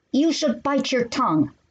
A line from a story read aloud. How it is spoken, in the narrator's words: shouted